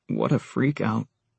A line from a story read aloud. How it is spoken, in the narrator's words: Eric said, his voice hardly more than a mumble